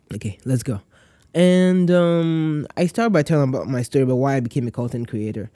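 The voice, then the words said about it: Congested, nasal voice. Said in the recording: “My nose is a bit clogged up, so my voice is not as clear. It's a bit nasal”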